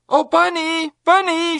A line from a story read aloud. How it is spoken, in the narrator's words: shouted Sue from the outer edge of the merry-go-round